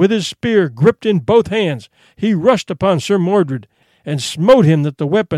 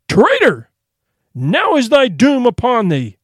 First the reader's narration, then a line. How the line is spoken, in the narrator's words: the king, his heart nigh broken with grief for the loss of his true knights, cried with a loud voice